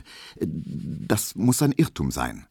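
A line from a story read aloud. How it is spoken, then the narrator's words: Stammered. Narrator (German): stotterte Emil Kubinke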